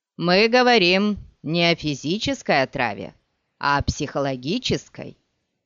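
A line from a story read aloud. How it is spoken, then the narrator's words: Laughing. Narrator (Russian): Скайтейл рассмеялся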